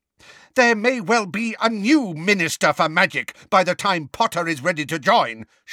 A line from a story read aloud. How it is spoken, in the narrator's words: shouted Professor McGonagall